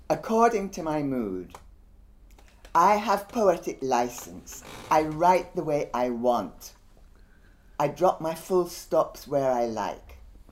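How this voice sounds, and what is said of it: Guyanese accent. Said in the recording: “excuse the accent, I'm actually from Guyana and we don't have the same Jamaican accent. Um, so I can't really do Benjamin's Jamaican Brummie accent.”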